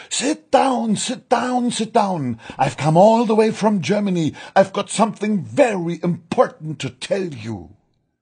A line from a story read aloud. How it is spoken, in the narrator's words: shouted